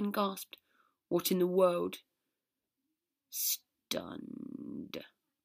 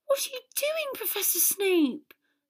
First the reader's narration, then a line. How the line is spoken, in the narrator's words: Hermione cried out